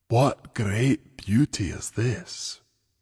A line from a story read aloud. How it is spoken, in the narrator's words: Kevin breathed, sounding soul-struck